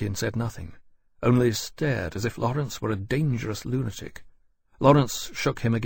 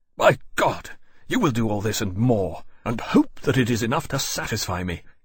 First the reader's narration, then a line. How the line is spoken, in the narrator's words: he said savagely